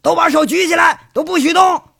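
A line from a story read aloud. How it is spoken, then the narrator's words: Loud shout. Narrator (Chinese): 警察……大声……喊呢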